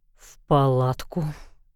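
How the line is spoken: Mumbled against her lips. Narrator (Russian): пробормотал Мэддокс ей в рот

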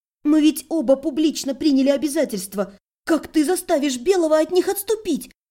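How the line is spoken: Taken-aback stammering babble. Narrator (Russian): Слегка опешив от напористости Кристины, пролепетала я

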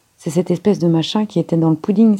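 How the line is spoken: Exclaimed. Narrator (French): s'écria-t-il

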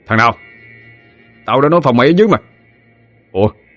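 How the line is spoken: Shouted. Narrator (Vietnamese): Bùi quát lên

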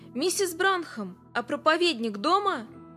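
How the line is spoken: Shouted. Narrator (Russian): мистер Эндрюс крикнул

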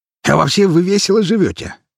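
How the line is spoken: Sudden laughter. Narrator (Russian): внезапно рассмеялся

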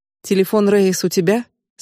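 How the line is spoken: Plain question. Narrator (Russian): спросил он

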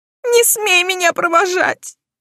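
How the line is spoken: Tearful shout. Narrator (Russian): выкрикнула сквозь слезы

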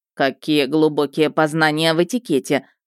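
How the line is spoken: Snorting smirk. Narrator (Russian): хмыкнула Щейка

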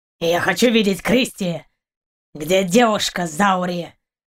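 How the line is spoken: Growled. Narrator (Russian): прорычал Каранец

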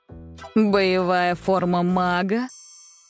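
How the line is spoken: Sarcastic. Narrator (Russian): язвительно спросил Крив Кузьмич

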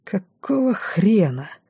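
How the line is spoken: Breathed out exclamation. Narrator (Russian): выдохнул

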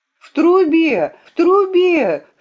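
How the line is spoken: Forceful scream. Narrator (Russian): с силой закричала я

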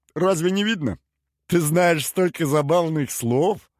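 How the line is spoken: Giggling. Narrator (Russian): Хихикнула та

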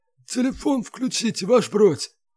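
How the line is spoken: Hoarse rasp. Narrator (Russian): просипел с пола Малинин

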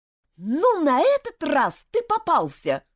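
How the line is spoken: Shout. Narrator (Russian): крикнула она

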